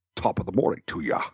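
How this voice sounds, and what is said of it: Sean Connery Scottish accent attempting Irish. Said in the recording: “it's like Sean Connery ... That's still Scottish.”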